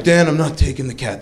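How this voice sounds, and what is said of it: Impression of a friend's voice. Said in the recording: “That's how he talks. Good impression if you knew him.”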